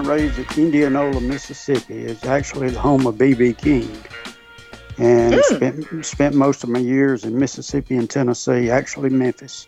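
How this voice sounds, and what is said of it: Tennessee Southern accent. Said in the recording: “You do sound like you do have more of a Tennessee accent”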